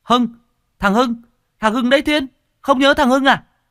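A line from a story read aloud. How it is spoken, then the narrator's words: Fat boy cries out. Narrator (Vietnamese): thằng Trung béo ở bên kia nó lập tức kêu lên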